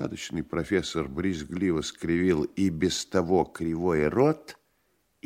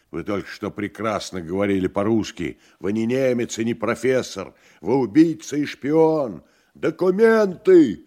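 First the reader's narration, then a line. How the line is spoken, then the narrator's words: Furious shout. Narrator (Russian): яростно крикнул Иван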